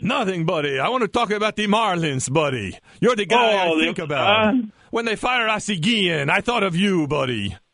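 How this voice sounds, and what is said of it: Impression of host's father. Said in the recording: “Let's have the fake Gonzo talk to the real Gonzo. How good is ... impersonation of my father?”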